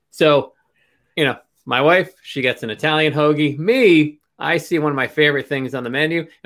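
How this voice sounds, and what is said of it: Philadelphia Pennsylvania accent. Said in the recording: “I love the Pennsylvania Philly accent. ... Almost like there's a hint of an R there.”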